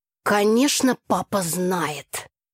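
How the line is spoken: Snorting, brother. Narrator (Russian): хмыкнул брат

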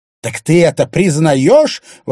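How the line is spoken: Exclaimed, woman. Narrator (Russian): воскликнула Александра

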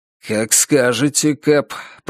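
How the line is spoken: Muttered under breath. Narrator (Russian): пробормотал Норман себе под нос

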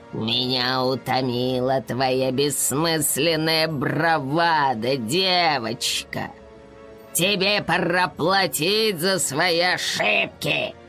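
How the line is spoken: Dark knight's growl. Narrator (Russian): Прорычал темный рыцарь

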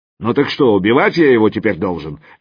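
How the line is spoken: Elephant barking roughly. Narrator (Russian): рявкнул слон

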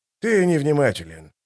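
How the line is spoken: Grumbling mutter. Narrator (Russian): буркнул Дуджик

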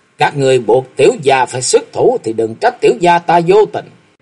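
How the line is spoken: Loud shout. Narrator (Vietnamese): Thạch Mộng quát lớn

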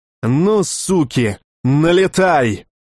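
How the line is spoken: Cheerful, angry shout. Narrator (Russian): выкрикнул весело и зло

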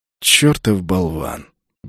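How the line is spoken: Good-natured grumbling. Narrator (Russian): беззлобно пробурчал орк

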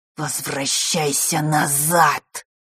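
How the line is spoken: Hissing shadow. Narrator (Russian): прошипела тень

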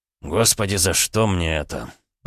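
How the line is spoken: Groaning prince. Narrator (Russian): простонал князь

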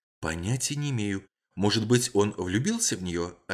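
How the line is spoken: Whispered answer. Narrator (Russian): ответила она также шепотом

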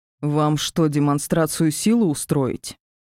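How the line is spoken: Growling. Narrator (Russian): зарычал Ди

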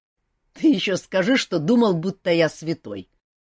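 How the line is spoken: Grumbling. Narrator (Russian): проворчал Жак

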